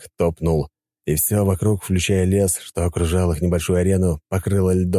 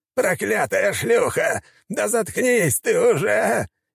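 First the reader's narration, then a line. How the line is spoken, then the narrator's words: Hysterical shout. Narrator (Russian): истерично прокричал маг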